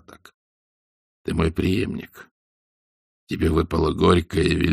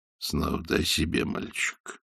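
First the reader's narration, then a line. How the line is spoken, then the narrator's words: Quiet. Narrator (Russian): тихо сказал Дорнброк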